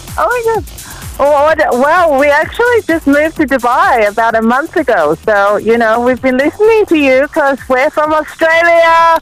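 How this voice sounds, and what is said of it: Australian accent mixed with another. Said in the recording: “You've got the Australian accent, but you've also got another accent going on.”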